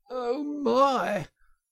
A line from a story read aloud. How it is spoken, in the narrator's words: gasped the poor Toad